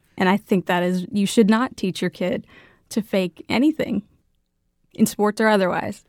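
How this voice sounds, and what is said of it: Speaks with a noticeable regional accent. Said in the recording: “you have a nice accent.”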